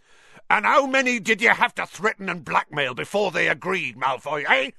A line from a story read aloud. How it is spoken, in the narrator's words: he roared